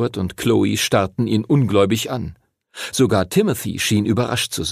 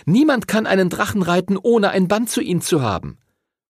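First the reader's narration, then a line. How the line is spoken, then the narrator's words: Calling out. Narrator (German): rief Chloe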